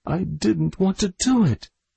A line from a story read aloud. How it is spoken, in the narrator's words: cried in tones of anguish